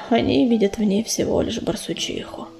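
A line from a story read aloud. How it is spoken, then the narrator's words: Sad, shaken. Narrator (Russian): печально вздрогнул ураган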